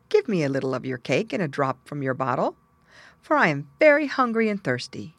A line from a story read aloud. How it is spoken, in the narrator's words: the very same little old man met him, and after greeting him kindly, said